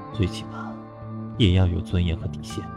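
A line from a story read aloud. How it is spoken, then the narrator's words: Low voice. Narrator (Chinese): 莫风低声地说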